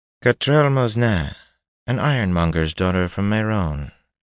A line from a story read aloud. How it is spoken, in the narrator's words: the woman said, just as smoothly as if it were common knowledge